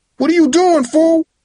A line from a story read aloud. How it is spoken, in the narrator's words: Tyrae yelled